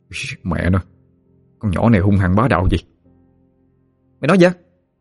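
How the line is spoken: Quiet muttering. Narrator (Vietnamese): Khá nhỏ tiếng lẩm bẩm

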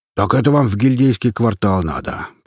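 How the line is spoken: Deep bass voice. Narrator (Russian): пробасил

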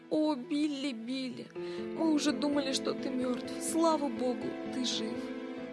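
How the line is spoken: Sobbing with relief. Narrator (Russian): рыдая

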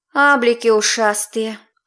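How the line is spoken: Exhaled. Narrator (Russian): выдохнула Илона, та, что на нижнюю половинку суккуб

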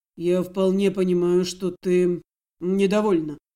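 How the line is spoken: Grumbling tone. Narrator (Russian): прозвучало высказанное ворчливым тоном

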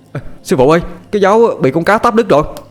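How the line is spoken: Crying out. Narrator (Vietnamese): Thằng Toàn kêu lên

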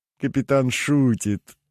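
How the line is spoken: Laughing woman. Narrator (Russian): рассмеялась пышнотелая супруга сенатора

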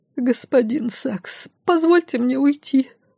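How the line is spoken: Slightly trembling voice. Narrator (Russian): произнесла она чуть дрожащим голосом

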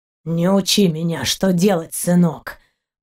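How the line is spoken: Deep gruff pirate voice. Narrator (Russian): пробасил пират

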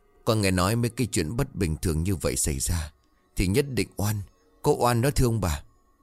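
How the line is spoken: Trembling servant. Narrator (Vietnamese): Một đứa ở run rẩy

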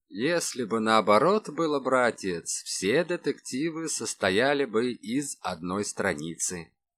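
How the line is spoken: Plain. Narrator (Russian): сказал Калашников

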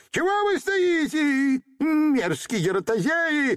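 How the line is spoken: Angry shouting. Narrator (Russian): закричал карлик, и его пепельно-серое лицо стало от гнева красное, как киноварь

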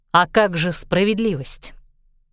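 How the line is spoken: Noisy sigh. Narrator (Russian): Клэр шумно вздохнула

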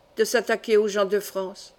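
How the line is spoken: Old man's murmur. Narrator (French): murmura le vieux métayer

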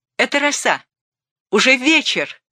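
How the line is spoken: Shout. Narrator (Russian): крикнула она

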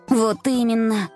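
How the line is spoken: Snort. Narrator (Russian): фыркнула Варя

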